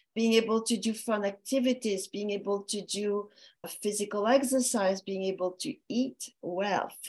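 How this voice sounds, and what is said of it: French accent. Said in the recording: “I'm from a French origin, as you can detect from my French accent when I talk”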